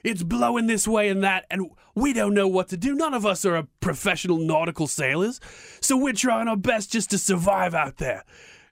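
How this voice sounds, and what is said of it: Put-on Australian accent. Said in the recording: “I'm slipping into an Australian accent here”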